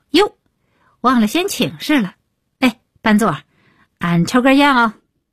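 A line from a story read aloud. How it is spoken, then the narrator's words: Loud. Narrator (Chinese): 李伟立刻高声道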